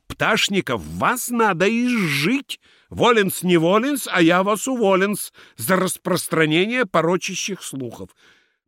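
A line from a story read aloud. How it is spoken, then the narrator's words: Angry shout. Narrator (Russian): сердито крикнул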